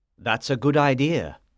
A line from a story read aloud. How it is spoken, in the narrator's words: Silas replied